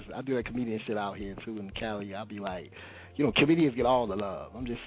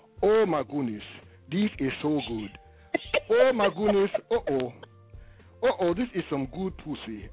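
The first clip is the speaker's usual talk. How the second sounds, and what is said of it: Put-on African accent. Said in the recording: “I do the voices ... I'll turn into the African.”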